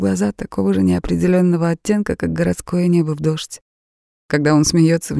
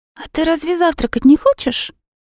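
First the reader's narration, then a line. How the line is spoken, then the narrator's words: Squeaky. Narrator (Russian): пропищала она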